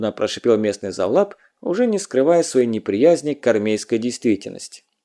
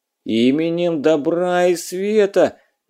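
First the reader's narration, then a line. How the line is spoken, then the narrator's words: Nasal howl. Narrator (Russian): гнусаво завыл Петька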